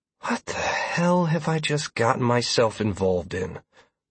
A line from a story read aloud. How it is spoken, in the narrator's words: I asked myself while letting out a heavy sigh